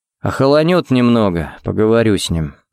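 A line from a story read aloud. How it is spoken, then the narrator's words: Sighing. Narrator (Russian): вздохнул он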